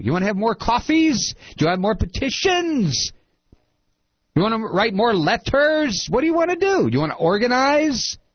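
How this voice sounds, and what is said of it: Screaming, shouting voice. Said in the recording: “I'm screaming again.”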